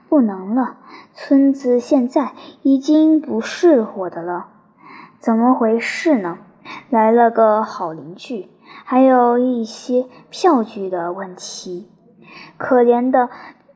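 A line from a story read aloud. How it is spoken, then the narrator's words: Sighing. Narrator (Chinese): 他叹了口气说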